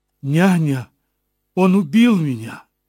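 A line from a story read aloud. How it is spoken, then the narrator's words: Crying out. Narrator (Russian): вскрикнула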